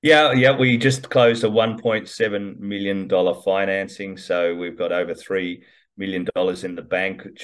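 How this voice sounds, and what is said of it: Speaks with a noticeable accent. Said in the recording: “Despite my accent”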